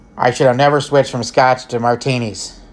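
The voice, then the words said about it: Imitates another person's voice, poorly. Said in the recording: “forgive the bad impression ... That's a terrible impression”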